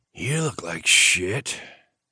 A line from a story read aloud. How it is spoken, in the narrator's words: Nash rasped